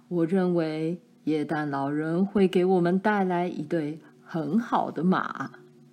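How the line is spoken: Father laughing. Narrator (Chinese): 爸笑道

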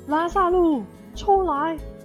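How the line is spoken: Shouting into cave. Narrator (Chinese): 对着洞穴大叫

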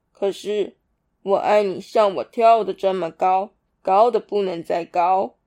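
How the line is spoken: Laughing. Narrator (Chinese): 大兔子笑着说

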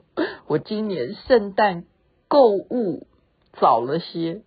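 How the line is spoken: Crying. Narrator (Chinese): 这个犯人就哭着回答说

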